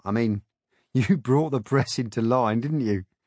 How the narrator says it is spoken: He said, laughing as if he had cracked a joke

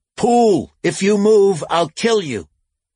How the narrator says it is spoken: shouted

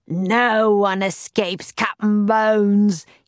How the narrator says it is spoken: he roared

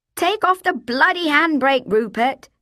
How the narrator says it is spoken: she shouted

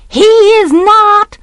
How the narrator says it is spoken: I roared

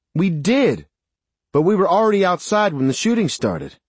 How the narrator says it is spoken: Mary shouted

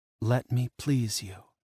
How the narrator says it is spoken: she whispered

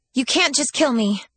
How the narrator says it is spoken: Lyssa blurted out

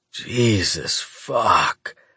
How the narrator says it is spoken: I moan

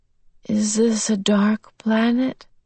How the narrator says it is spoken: Slowly her tongue was beginning to thaw, her words were less blurred

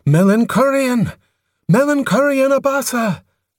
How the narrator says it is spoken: Her voice sounded frail

